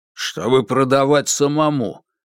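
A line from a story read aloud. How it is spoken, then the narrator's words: Grumbling. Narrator (Russian): проворчал Кармини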